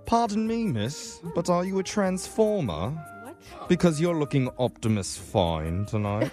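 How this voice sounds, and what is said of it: Put-on British accent. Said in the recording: “Can you tell I'm a British person? ... I just learned this accent off YouTube”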